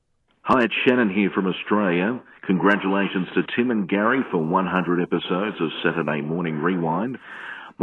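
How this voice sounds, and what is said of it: Australian accent. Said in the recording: “I love his accent, by the way. ... he's got a great voice. ... Australian accents”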